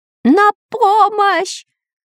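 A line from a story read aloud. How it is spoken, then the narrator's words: Terrified yelling. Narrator (Russian): уже не на шутку перепугавшись, орал шпион Дырка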